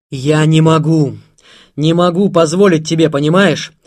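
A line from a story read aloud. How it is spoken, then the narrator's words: Shout. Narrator (Russian): закричал Заров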